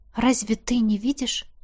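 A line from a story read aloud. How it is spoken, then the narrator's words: Quiet question. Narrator (Russian): тихо спросила у Кхаанри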